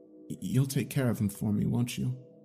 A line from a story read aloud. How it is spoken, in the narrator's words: I asked, as I felt my composure beginning to crack